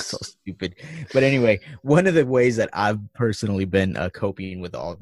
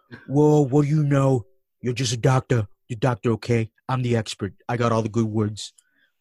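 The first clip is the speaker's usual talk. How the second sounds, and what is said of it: Imitates another person's voice. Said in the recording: “impersonation ... Donald”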